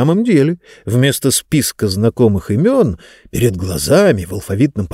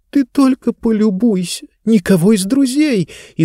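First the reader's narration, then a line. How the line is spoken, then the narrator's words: Frightened whisper. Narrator (Russian): испуганно прошептала Диба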